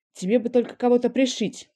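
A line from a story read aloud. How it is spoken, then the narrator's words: Commander grumbling. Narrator (Russian): пробурчал командир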